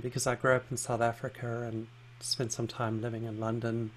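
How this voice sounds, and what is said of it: Hard-to-place mixed accent. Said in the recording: “I get told you have an accent ... don't have anything that is is easily labelled as a particular accent. Um, I often get confused for a, a Kiwi or an Australian”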